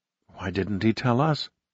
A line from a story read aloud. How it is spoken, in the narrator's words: she whispered